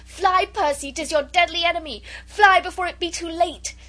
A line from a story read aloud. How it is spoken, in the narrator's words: she very nearly screamed out to him